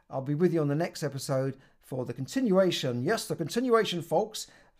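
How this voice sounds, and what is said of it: Speaks with a noticeable accent. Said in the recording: “Sorry about the accent.”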